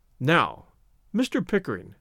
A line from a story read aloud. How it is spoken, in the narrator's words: Larry spoke slowly